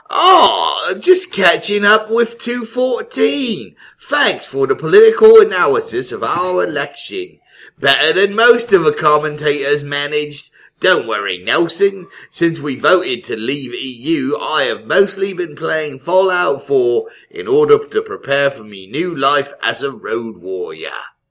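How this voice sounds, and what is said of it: English accent like Peter Cook. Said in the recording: “read this in English accent? ... Yes. ... I like that you did it as like a Peter Cook”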